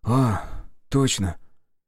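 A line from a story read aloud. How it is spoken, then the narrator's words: Exclaimed. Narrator (Russian): воскликнул Слава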